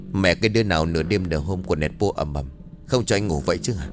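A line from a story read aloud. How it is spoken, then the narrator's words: Muttered cursing. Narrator (Vietnamese): Tuân miệng lẩm bẩm chửi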